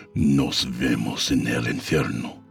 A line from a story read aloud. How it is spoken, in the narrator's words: he growled